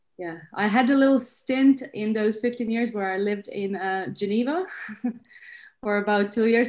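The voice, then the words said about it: Slightly British-sounding mixed accent. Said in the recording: “your accent. It's a little bit British ... now it's a fusion of all sorts of things”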